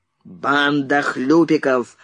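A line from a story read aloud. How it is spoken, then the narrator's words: Barked. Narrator (Russian): рявкнул Фриц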